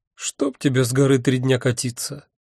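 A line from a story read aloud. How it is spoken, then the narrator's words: Unhappy voice. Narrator (Russian): Несчастным голосом сказала Альвианта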